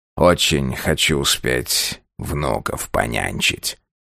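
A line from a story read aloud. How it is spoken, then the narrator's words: Changed, hollow voice. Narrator (Russian): другим глухим голосом проговорил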